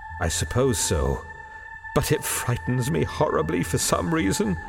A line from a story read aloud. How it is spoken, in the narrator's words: returned in a hushed voice